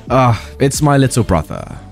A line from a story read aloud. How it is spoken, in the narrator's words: The nice kid sighed and said